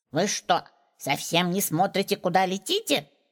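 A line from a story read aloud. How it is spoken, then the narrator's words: Indignant. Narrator (Russian): возмущенно сказала одна гномиха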